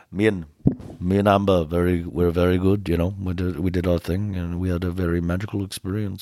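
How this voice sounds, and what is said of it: Slow low Johnny Depp impression. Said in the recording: “he was talking so slow ... it's always low and there's like a little bit of an accent there”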